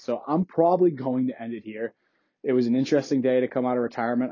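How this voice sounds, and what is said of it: Voice starting to give out. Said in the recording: “I'm kind of starting to lose my voice”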